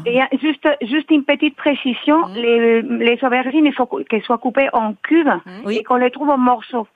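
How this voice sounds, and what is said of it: Slight Spanish accent in French. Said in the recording (French): “d'où vient ce petit accent? ... Espagnol.”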